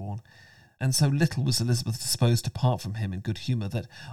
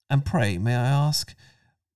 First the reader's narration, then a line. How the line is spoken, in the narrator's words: he added in a gayer tone